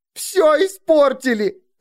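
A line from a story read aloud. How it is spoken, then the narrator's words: Sobbing. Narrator (Russian): рыдала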